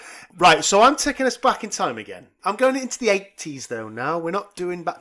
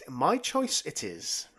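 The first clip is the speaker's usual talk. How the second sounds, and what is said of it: Yoda impression. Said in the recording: “in a Yoda voice”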